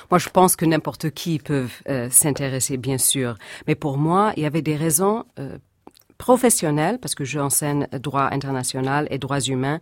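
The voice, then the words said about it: American accent in French. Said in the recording (French): “cette femme avec cet accent américain”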